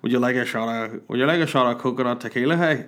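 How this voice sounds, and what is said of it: Imitates another person's voice. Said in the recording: “terrible impression”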